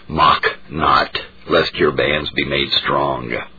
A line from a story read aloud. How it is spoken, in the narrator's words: The martyr, in tears of sorrow and regret, said to him in that deep and solemn tone so peculiar to him